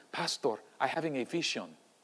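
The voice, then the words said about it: Put-on Salvadoran older woman's accent. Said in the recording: “she was from El Salvador, I believe ... forget my accent ... what it was like, this older woman”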